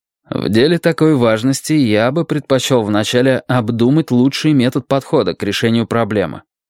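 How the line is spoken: Plain. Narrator (Russian): наконец сказал он

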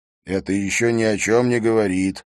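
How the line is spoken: Gruff mutter. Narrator (Russian): буркнул Либье

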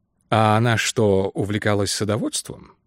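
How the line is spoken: Quiet question. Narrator (Russian): негромко спросил мистер Кин

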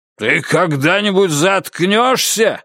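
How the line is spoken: Angry shout. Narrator (Russian): закричал О'Доннелл багровее

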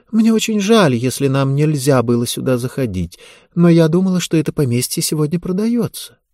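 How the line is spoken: Soft and polite. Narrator (Russian): Мягко и вежливо она сказала в ответ

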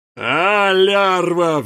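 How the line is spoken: Anguished howl. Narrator (Russian): взвыл князь

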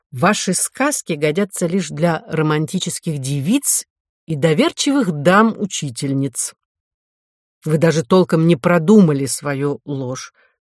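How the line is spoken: Plain. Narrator (Russian): сказал комиссар

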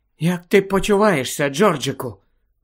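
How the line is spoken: Whispered. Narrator (Ukrainian): прошепотіла місіс Уізлі

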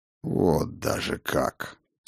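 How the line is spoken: Through gritted teeth. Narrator (Russian): сквозь зубы процедил господин Стайн

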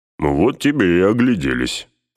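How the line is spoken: Grumbling. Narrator (Russian): проворчал Гимли

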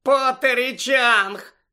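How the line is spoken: Shout over snide giggling. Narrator (Ukrainian): закричала Пенсі під акомпанемент єхидного хихотіння

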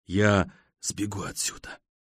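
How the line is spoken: Whisper in darkness. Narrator (Russian): слышу я шепот в темноте

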